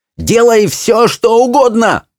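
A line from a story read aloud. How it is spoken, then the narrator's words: Yelling. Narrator (Russian): завопила Чармайн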